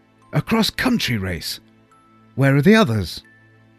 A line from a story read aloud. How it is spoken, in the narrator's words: Here was true energy, and I exclaimed